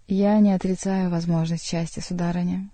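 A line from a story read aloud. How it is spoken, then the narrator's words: Sighing. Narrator (Russian): снова вздохнул Бюсси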